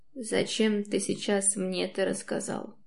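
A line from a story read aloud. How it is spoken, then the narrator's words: Hoarse, muffled question. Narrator (Russian): Хриплым, глухим голосом спрашивает он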